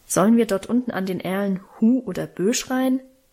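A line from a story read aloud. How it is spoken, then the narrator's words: Plain. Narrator (German): fragte Alwine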